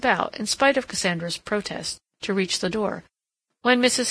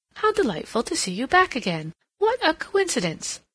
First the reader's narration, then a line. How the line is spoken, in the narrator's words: she exclaimed